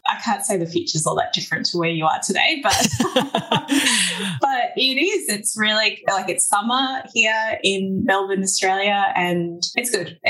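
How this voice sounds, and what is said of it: Australian accent. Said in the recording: “my Aussie accent? It's not that loose”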